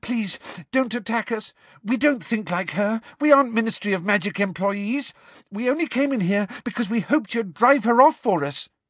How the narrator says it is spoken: said Hermione breathlessly

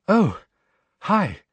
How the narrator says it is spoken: she said breathlessly

